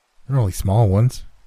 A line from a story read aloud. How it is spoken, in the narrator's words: quavered Red